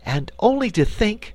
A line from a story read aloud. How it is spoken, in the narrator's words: cried Dorothy